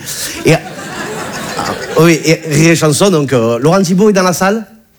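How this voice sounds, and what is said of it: Southern French accent. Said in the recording (French): “Tu as vu mon accent, je viens pas de Bagnolet ... Bouches du Rhône”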